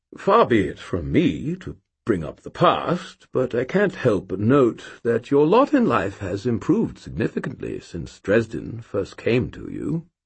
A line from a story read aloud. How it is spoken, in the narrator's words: he cleared his throat and said in a diffident tone